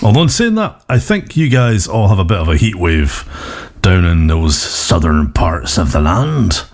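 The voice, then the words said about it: Put-on Cornish accent. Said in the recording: “I'm doing a Cornish accent”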